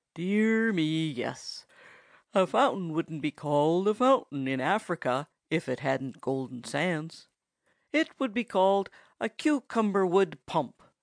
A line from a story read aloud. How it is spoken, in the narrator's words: suggested the woodchuck drowsily